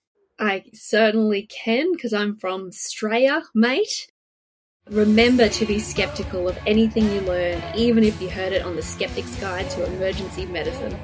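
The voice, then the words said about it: Exaggerated Australian accent. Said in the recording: “give the SGEM tagline in your best Australian accent”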